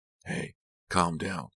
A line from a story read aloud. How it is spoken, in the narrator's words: Kit said gently